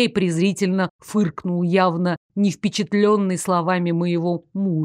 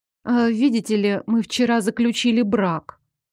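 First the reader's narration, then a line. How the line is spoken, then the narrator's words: Timid. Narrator (Russian): робко произнесла я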